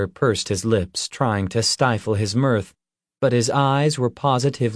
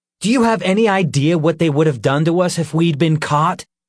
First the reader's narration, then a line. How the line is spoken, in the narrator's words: Nick snapped